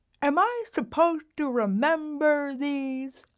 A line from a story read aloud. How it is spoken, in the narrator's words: she toothlessly asks, still laughing